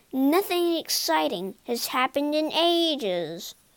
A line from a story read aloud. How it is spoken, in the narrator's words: moaned Darcy Buckle